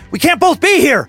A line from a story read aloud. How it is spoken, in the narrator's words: Duncan yelled, as if Other Duncan would somehow understand what the hell he was talking about, as if that were reasonable